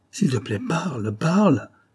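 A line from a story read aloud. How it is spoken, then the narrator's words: Urgent murmur. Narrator (French): il murmure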